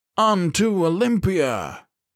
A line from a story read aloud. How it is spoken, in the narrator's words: The others bellowed